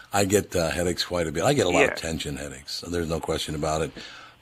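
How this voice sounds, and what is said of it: Hoarse voice from a cold. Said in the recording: “I have a cold, by the way. That's why I sound like I've been singing all night, but I actually caught a cold.”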